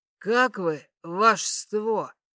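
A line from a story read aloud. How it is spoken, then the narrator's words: Heavily lisping question. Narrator (Russian): спросил страшно шепелявый неприятный тип без верхнего ряда зубов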